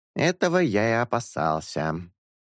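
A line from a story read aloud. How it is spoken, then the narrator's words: Grumbling. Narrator (Russian): проворчал журавль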